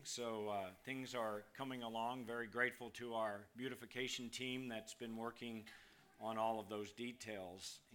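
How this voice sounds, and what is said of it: Strained, failing voice. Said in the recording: “I was losing my voice at the end of the first time. I'm going to try not to be quite as animated. I'll be more of the Jonathan Edwards monotone ... My hot water's coming up even now.”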